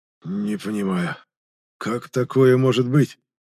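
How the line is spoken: Hoarse man's question. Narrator (Russian): хрипло спросил мужчина, которого я запомнил как советника уже покойного Грана Ревнар

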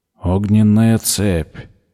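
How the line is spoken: Flat colorless voice. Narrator (Russian): бесцветным голосом повторил он

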